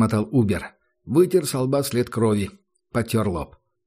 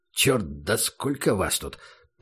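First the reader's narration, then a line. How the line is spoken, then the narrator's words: Mutter. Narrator (Russian): пробормотал он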